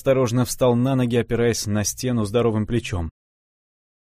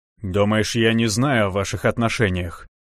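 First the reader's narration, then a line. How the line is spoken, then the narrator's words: Growl. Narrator (Russian): рыкнул Илья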